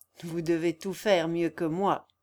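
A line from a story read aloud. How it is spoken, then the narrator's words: Plain. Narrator (French): répondit-il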